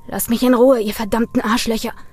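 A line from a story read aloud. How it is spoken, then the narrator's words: Snarled. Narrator (German): fauchte Brian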